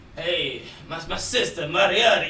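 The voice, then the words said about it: Put-on Italian accent. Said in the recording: “he had the Italian accent ... You trying to make an accent of an accent?”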